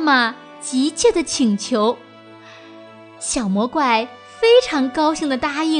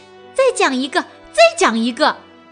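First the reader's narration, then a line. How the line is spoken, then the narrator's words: Loud. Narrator (Chinese): 爸爸大声地说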